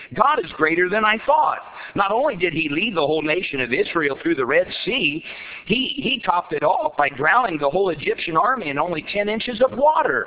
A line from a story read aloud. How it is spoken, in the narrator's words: exclaimed the boy happily